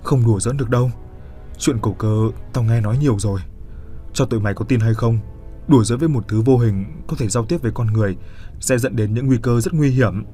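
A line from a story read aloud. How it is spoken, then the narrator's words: Trembling. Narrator (Vietnamese): Nó run run bảo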